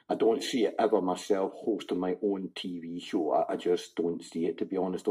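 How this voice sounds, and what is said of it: Thick Scottish accent. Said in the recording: “quite a thick Scots accent you've got there”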